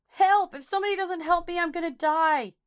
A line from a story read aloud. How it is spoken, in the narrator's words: Kitty pled with her neighbors again, screaming